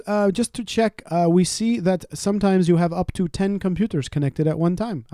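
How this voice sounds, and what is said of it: Put-on accent imitating a caller. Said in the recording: “Is that racist to do the accent? ... She's just really good at accents. ... I am really good at accents. ... you say she, but you sound like a dude. ... I'm dropping the accent because I can't keep it up.”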